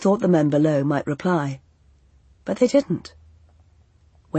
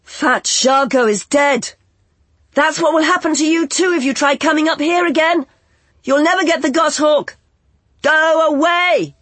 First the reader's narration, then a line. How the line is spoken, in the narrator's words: shouted